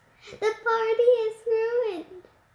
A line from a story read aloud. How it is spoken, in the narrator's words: she sobbed